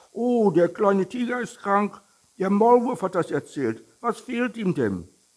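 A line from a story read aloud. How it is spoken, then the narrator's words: Hare calling out. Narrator (German): Der Hase mit den schnellen Schuhen rief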